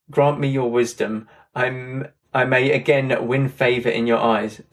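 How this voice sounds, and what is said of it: Croaky voice. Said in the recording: “My voice was a bit croaky there.”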